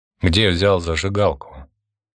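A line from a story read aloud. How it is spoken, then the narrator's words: Forced calm, repeated question. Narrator (Russian): повторил свой вопрос Константин, стараясь говорить спокойно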